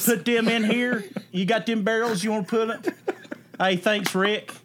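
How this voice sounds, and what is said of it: Put-on Kentucky accent. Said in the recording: “Default Kentucky accent, by the way. I like that a lot.”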